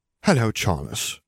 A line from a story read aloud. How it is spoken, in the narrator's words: Augusta returned warmly